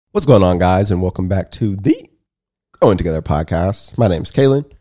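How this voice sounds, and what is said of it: Sick, worn-out voice. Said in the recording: “I'm sick ... My voice is already kind of gone.”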